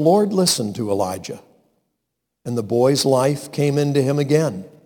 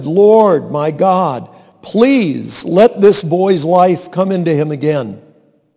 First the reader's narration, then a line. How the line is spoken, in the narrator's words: He cried out to the Lord and said